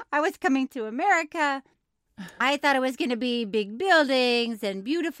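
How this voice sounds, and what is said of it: Weak put-on foreign accent. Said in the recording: “You're not known for your accents, right? ... That's not what I'm known for. But I wanted to let you know that he speaks with an accent.”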